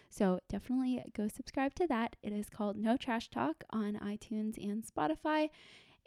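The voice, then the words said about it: Strained voice giving out. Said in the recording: “my voice is giving out now”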